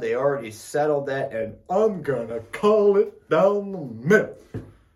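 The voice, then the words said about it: Shawn Michaels impression. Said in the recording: “my best Shawn Michaels impression ... That was pretty good.”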